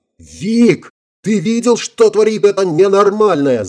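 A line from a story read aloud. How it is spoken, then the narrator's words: Yelled. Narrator (Russian): заорал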